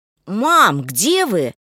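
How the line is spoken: Shout. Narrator (Russian): крикнул Андрей

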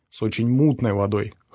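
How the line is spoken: Snorting. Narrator (Russian): хмыкнул пригоршня

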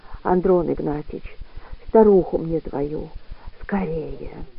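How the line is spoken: Weak, parched whisper. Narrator (Russian): Она разомкнула пересохшие и посиневшие губы и прошептала

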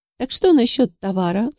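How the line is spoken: Dry. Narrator (Russian): сухо спросила я

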